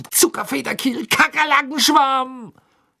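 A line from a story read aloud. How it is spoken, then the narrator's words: Angry yelling while hopping. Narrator (German): schrie er zornig auf einem Bein hüpfend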